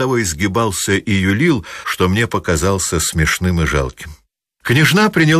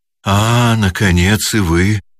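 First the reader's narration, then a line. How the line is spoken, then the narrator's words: Timid, smiling. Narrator (Russian): робко сказала, улыбаясь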